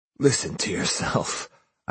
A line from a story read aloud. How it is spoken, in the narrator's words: I answered in a choked voice